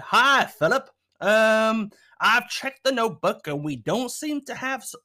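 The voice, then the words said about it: Exaggerated put-on silly accent. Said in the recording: “I don't know why I've gone to some crazy accent here, but I'm running with it.”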